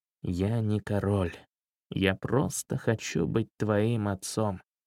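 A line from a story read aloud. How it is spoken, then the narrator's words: Choked quiet mutter. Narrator (Russian): У него перехватило дыхание, и он тихо пробормотал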